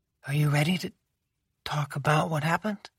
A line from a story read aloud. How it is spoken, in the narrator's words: She asked softly